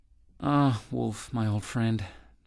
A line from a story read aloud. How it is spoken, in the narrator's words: said Jackal in a sad tone of voice